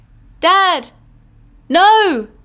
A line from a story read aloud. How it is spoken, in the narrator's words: in a voice so thin in the midst of the chaos all around, I cried